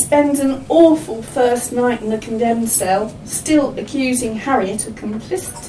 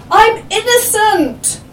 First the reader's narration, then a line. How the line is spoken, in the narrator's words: breaks down and sobs when he hears those dreadful words pronounced and shouts